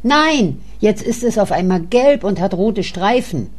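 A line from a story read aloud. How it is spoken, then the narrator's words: Calling out. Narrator (German): rief Karl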